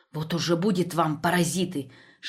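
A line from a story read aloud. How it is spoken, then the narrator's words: Whispered. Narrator (Russian): шептала она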